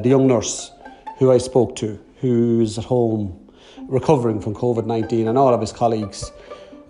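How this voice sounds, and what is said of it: Irish Dundalk accent. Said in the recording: “my Dundalk accent”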